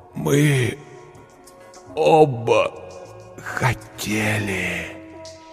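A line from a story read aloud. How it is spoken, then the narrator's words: Pained groan. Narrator (Russian): простонал Эшт, держась за клинок, пронзивший его грудь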